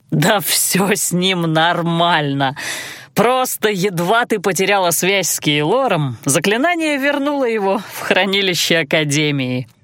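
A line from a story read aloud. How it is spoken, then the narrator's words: Explaining through laughter. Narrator (Russian): Сквозь смех пояснил Алан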